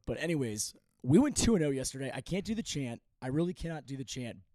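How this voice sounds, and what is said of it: Hoarse, worn-out voice. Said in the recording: “My voice is shot. ... I'm in stage four. I think I don't have a larynx anymore.”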